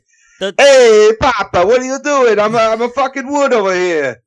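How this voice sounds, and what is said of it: Put-on Italian accent. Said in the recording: “talk with a fucking Italian accent”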